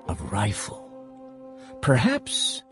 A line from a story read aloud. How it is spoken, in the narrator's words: said Kino softly